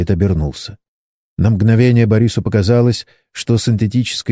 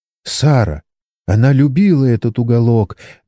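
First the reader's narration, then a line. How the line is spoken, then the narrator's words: Trembling voice. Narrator (Russian): дрожащим голосом произнесла китаянка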